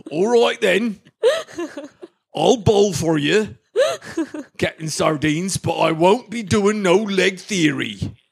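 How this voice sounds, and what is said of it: Hagrid-like character voice. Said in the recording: “I'm thinking Gubby Allen's got real Hagrid vibes.”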